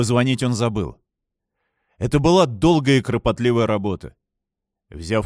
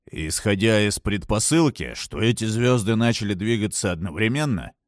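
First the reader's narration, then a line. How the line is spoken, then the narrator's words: Muttering under breath. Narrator (Russian): бормотал он себе под нос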